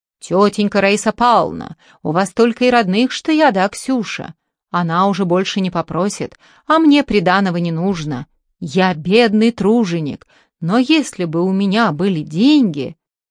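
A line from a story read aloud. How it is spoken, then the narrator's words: Booming bass imitation. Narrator (Russian): гулким басом, как в бочку, заговорил, подражая Коле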